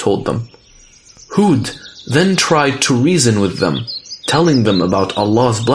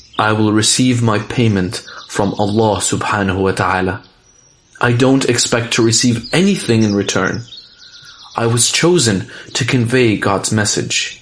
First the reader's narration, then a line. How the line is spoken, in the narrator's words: told them calmly